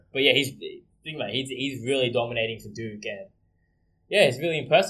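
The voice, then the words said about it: Non-American accent. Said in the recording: “you can tell by our accents that we're not American”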